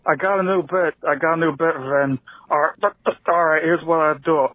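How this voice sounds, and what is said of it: Imitates another person's voice. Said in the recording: “terrible imitation”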